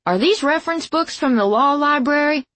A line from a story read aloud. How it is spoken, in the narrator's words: I yelled